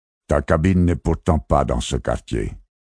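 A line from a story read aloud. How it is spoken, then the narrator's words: Curt, cutting tone. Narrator (French): reprit Montréal d'un ton tranchant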